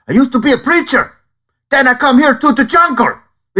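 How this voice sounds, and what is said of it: Jon Voight's South American accent. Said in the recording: “I could do John Voight from Anaconda ... he's doing a terrible, offensive South American accent in that”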